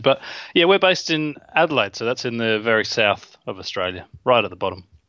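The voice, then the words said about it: Australian accent. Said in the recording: “you are based in Australia, right? That's hence the incredible accent.”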